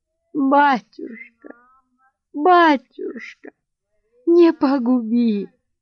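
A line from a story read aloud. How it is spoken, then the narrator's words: Repeated while sobbing. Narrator (Russian): твердила она, рыдая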